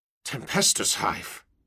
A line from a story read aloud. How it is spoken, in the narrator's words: several officers muttered